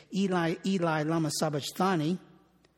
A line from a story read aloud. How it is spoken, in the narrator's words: said